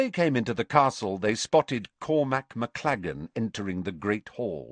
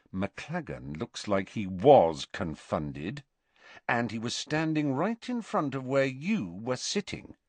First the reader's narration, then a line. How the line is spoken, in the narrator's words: said Harry quietly